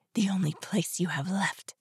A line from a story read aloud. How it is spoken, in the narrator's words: she whispered at me